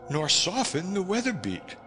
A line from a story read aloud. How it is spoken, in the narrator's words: wailed